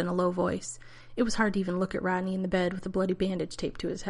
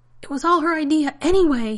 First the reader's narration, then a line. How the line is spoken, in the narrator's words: he yelled